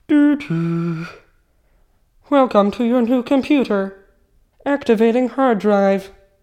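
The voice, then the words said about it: Robot voice. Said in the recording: “Do your best robot voice.”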